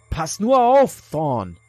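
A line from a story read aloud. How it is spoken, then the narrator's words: Calling after someone. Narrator (German): rief Gary Trappelford Adam hinterher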